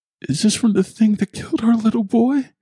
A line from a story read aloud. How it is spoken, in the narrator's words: She asked, tears choking her words